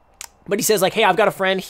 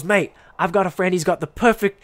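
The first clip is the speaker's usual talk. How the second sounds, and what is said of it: Attempted British accent. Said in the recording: “He was a British guy. ... I cannot do the accent. ... I'll stop the accent.”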